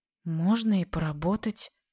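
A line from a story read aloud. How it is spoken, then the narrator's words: Grudging, displeased. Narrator (Russian): она выдавила очень недовольно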